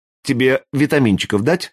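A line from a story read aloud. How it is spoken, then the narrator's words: Plain. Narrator (Russian): спросила Юлька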